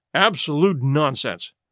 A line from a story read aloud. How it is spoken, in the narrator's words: muttered Willard, angrily